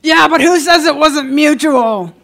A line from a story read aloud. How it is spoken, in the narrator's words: bellowed from the bar